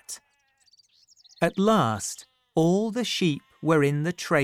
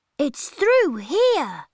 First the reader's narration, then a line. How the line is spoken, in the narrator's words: Peter cried